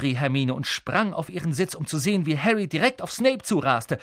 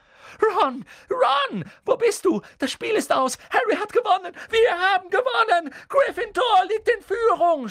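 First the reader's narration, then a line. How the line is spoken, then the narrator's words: Excited screaming. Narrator (German): schrie Hermine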